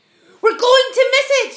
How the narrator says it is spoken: shouted the ladybird

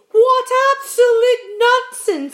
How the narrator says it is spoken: cried the earthworm

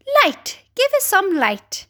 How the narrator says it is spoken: they cried

